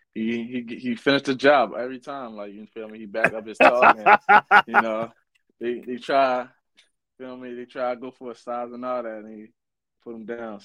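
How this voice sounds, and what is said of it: Baltimore accent. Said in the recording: “The Baltimore accent kills me, bro ... And I seen you from Baltimore. I said, here we go with that accent, man ... I really got a crazy accent, though ... Yeah, yours ain't as bad, man”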